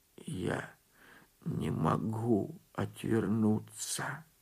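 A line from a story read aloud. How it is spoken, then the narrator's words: Hunted frightened whisper. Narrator (Russian): отвечал он затравленным шепотом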